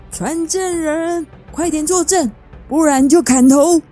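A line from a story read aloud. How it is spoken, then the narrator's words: Queen roaring. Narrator (Chinese): 女王大声地吼着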